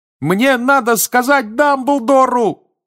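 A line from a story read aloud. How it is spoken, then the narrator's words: Even louder shout. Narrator (Russian): еще громче закричал Гарри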